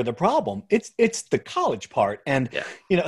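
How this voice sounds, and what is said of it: Usual voice. Nothing is said of it.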